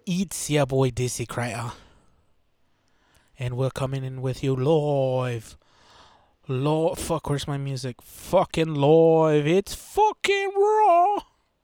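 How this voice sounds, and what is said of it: British accent, imitates a celebrity chef. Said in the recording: “where's your British accent? I mean, that's how you got to do it. ... That's my Gordon Ramsay”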